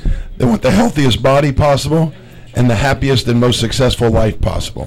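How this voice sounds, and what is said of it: Slightly raspy voice. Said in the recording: “Pardon my voice, I'm a little raspy.”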